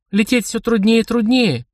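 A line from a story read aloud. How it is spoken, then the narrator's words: Singsong voice. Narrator (Russian): певучим голосом произнесла она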